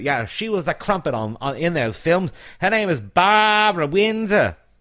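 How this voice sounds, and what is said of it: Put-on Australian accent. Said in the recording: “I don't know why I'm doing an Australian accent”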